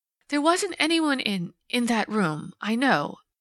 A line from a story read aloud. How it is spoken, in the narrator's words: she faltered